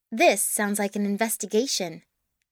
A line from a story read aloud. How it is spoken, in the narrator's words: she said firmly